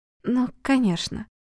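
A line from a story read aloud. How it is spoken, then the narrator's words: Mumbling. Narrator (Russian): пробормотала Светлана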